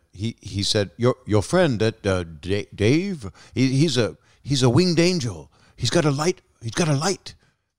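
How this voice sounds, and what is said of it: Imitates another person's voice, badly. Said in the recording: “I'm doing a bad impression.”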